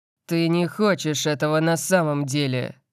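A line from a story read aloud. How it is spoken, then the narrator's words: Growled. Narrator (Russian): прорычал Лайонелл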